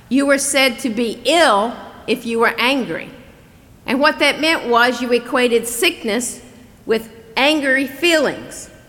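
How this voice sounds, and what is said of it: Southern US accent. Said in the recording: “growing up in the South ... if you have trouble with my accent”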